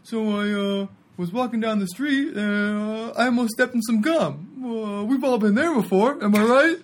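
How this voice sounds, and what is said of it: Imitates another person's voice. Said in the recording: “that was his impression of him”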